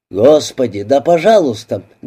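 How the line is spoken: Barked shout. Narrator (Russian): гаркнул он

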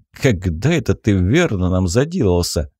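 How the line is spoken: Amused snort. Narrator (Russian): хмыкнул я

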